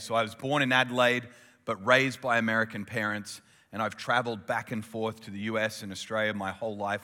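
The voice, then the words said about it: Mild Australian accent, Americanized. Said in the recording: “I have the Russell Crowe version of the Australian accent, which simply means you're an Aussie that's just spent way too much time overseas”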